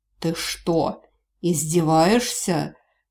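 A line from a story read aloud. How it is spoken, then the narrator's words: Menacing growl. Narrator (Russian): Рычание воина стало еще более угрожающим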